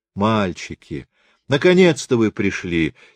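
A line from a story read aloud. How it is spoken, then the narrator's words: Warm, heartfelt. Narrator (Russian): сердечным тоном говорит Герда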